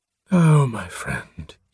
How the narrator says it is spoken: he breathed

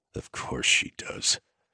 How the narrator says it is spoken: Trace muttered

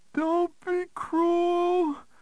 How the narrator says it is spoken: the perp pleaded

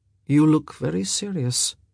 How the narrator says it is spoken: he said quietly

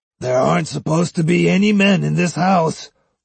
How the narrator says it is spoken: roared Tenma

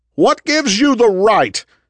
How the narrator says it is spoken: Jack shouted

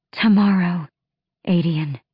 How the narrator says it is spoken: she breathed

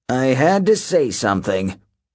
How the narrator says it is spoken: Hedge grumbled

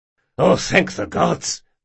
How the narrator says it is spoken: muttered Nicoros

